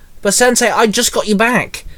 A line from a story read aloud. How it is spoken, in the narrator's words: Dante blurted